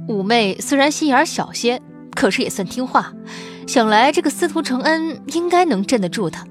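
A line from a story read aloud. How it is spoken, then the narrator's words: Young man, sudden laugh. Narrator (Chinese): 沈家三少英挺年少，忽然笑道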